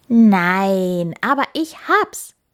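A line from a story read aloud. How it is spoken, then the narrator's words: Calling out. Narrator (German): rief der Hase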